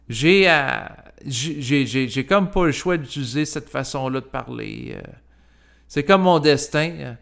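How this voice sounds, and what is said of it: Québécois French accent. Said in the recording (French): “ici, c'est l'accent québécois”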